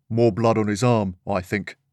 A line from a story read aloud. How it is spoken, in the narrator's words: one officer said in a deep voice